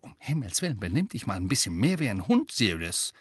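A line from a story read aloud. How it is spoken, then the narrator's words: Hiss. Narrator (German): Weasley zischte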